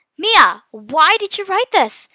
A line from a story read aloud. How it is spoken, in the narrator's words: I shouted worriedly